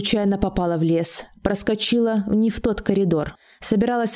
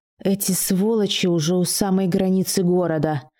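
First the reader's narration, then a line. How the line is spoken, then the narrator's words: Hateful hiss through teeth. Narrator (Russian): лицо девушки перекосилось гримасой ненависти, и она сквозь зубы прошипела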